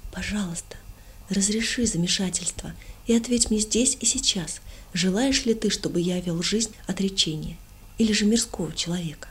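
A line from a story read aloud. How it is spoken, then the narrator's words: Quiet fervent prayer. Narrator (Russian): Со всем пылом своего сердца я тихо молился Богу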